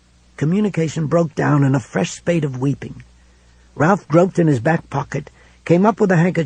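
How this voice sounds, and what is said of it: Usual voice. Nothing is said of it.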